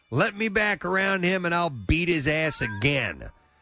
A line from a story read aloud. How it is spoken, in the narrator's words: Sierra shouting